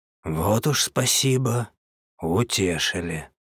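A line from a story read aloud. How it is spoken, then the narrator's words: Hoarse wheeze while smoking. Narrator (Russian): прохрипел худой, делая глубокую затяжку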